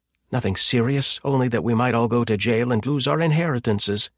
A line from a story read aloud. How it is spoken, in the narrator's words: she snapped